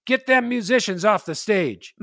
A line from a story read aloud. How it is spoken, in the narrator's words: The leader of the group, a big scary guy named Mustache Bill, yelled out